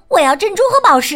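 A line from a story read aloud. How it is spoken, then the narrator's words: Shouting. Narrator (Chinese): 另一个也嚷道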